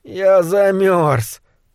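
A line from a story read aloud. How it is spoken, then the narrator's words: Whimpering. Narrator (Russian): прохныкал Кэндалл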